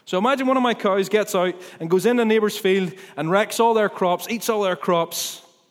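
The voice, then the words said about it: Ballymena accent. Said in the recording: “I'm from Ballymena. You can't maybe not tell from my accent, but I am.”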